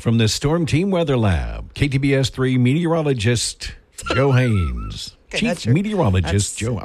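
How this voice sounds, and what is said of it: TV news intro announcer voice. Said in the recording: “Do the voice introducing the KTBS news so they'll recognize you. Do the intro of the KTBS news.”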